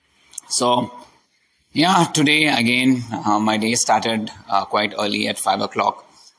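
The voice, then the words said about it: Hoarse, weak voice. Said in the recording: “My voice is completely gone. I am having a little bit of sore throat ... my voice is not that audible.”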